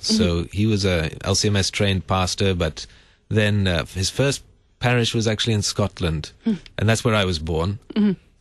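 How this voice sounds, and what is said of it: Not entirely American, slightly Sri Lankan accent. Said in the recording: “I don't have an entirely American accent ... A little bit of an accent ... I sound slightly Sri Lankan ... You do. I was noticing that ... I love the accent.”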